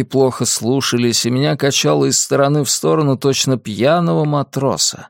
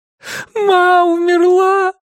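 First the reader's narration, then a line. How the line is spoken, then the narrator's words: Sobbing. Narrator (Russian): прорыдал я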